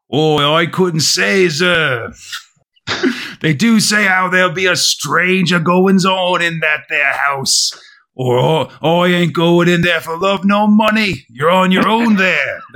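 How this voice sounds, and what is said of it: Put-on rustic English accent. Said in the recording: “he's got that this phonetic English accent ... Good try. ... Not bad. Not bad.”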